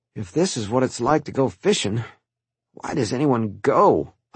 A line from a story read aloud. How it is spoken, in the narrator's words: I mumbled